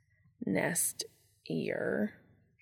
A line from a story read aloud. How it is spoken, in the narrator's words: he mutters